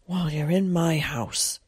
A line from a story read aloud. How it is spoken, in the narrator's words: said in a choked voice